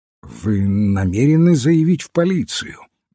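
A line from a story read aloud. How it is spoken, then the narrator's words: Uncertain question. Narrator (Russian): неуверенно спросил инспектор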